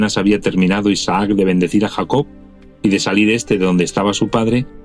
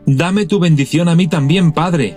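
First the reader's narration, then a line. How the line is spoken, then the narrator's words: Bitter anguished pleading cry. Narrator (Spanish): Esaú lanzó un grito atroz, lleno de amargura, y le suplicó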